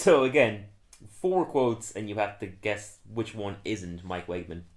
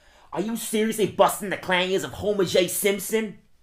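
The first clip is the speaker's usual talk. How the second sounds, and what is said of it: Impression of Mike Wegman. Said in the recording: “doing an impression of... I'm doing Mike Wegman”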